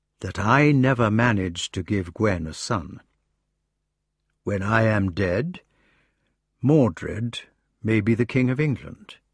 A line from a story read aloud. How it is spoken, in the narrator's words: he said gently